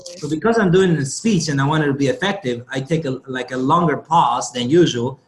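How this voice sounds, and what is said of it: Speaks with a noticeable foreign accent. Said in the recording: “I have an accent ... Can you guys hear my accent?" They say yes ... I may speak with an accent”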